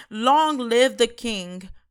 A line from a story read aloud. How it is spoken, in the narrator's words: all the people shouted